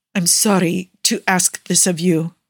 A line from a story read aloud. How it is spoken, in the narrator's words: Nicola continues stiffly